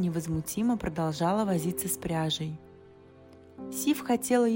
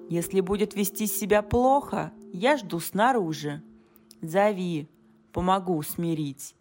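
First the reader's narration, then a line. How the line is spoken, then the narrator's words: Growl. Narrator (Russian): прорычал сын грома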